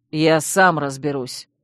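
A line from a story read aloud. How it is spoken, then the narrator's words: Angry growl. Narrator (Russian): рыкнул разозленный Чейз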